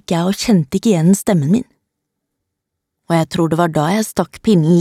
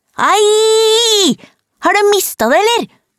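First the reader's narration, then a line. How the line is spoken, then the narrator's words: Shouted. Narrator (Norwegian): ropte hun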